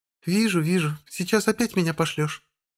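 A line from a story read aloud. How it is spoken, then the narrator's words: Sighing. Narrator (Russian): вздохнула моя подруга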